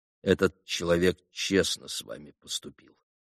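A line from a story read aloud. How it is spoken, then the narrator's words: Quiet speech. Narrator (Russian): тихо проговорил Алеша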